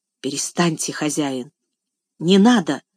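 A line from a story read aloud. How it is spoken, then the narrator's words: Strained, choked voice. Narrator (Russian): сдавленным голосом проговорила она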